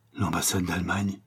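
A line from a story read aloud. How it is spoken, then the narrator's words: Hissed in alarm. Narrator (French): siffla le diplomate chilien, tellement effaré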